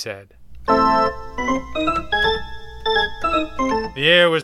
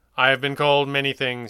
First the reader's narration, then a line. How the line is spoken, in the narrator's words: he said